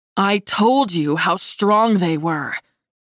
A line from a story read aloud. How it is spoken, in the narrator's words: growled, his navy eyes glowing with the new challenge I presented